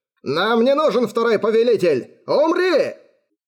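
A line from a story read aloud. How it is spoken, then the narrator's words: Shouted. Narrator (Russian): выкрикнул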